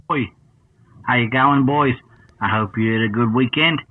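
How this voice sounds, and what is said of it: Put-on accent. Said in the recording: “But then we'll drop the accent.”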